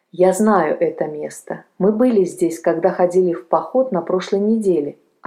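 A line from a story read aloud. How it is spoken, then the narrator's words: Plain. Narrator (Russian): ответил тот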